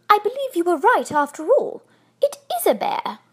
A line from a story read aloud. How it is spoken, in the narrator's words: she exclaimed